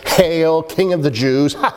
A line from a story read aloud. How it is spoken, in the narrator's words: laughing, no doubt, as they said it